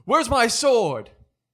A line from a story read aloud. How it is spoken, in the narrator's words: he yells